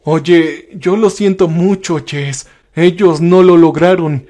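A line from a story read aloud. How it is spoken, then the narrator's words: Stammering. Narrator (Spanish): balbucié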